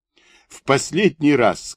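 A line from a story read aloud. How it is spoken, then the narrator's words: Through laughter. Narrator (Russian): сквозь смех говорит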